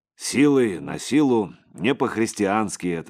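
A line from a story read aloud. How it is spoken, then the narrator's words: Plain. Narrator (Russian): сказал Игорь Савич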